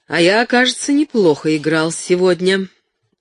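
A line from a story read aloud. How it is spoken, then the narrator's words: Said cheerfully. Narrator (Russian): весело сказал он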